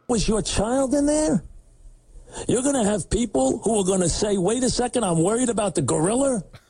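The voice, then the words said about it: New York accent. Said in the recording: “That's that New York accent coming through.”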